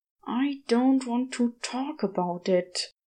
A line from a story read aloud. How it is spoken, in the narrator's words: Crowley hissed